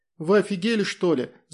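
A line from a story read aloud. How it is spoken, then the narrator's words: Shouting. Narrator (Russian): закричала Тоня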